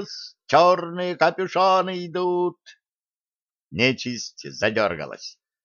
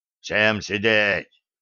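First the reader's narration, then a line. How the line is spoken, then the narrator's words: Menacing. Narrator (Russian): грозно сказал черный капюшон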